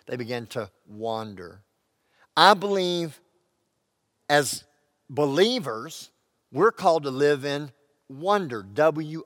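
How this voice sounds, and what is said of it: Texan accent. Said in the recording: “I speak with a Texan accent”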